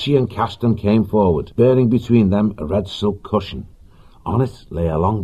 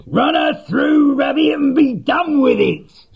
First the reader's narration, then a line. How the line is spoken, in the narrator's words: Celandine shrieked